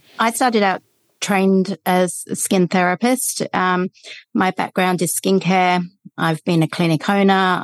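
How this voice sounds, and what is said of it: British accent. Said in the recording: “I'm from the UK originally. Hopefully you can still hear that commie accent.”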